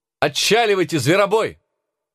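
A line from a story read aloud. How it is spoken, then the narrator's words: Shouting. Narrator (Russian): закричала Юдив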